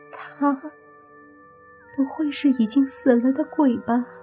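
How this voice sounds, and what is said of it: Quiet, hushed female voice. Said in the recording (Chinese): “就听一个女明星小声说”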